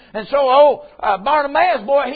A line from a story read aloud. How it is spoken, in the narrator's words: he cried